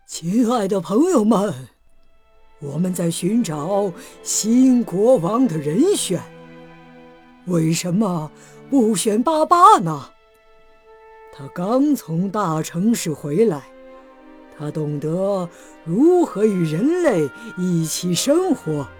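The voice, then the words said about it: Trembling old elephant voice. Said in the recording (Chinese): “最年长的大象，用颤抖的声音说”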